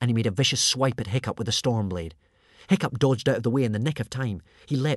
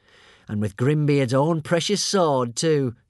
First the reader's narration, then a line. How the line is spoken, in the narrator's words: chuckled Alvin